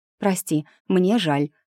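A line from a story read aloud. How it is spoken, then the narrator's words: Breathy, unapologetic. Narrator (Russian): выдохнула без тени этого самого сожаления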